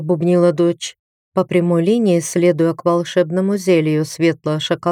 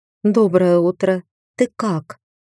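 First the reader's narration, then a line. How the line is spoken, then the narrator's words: Soft question. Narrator (Russian): мягко спросила Наталья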